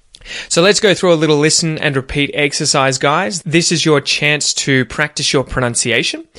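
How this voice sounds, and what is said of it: General Australian accent. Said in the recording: “ignore my accent ... if you're trying to perfect that Aussie accent and you want a more general Australian accent ... try and pronounce the words exactly as I do”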